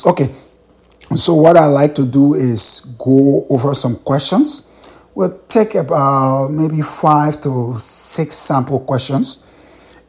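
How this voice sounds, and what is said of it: Hoarse voice. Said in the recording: “hoarse”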